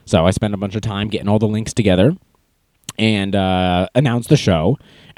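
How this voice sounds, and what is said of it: Hoarse, strained sick-sounding voice. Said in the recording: “I can't talk because I have had a cold for about 3 days... And then it sounds like this... How horrible is it?”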